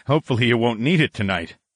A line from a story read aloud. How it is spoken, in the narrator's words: I chuckled dryly